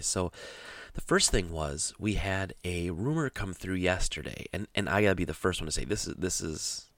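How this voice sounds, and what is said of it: Slightly froggy, hoarse voice. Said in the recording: “my voice sounds a little froggier than usual”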